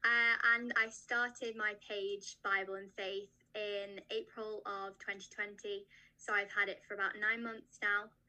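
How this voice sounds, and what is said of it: British accent. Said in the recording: “I'm from the UK, as you might be able to tell by my accent.”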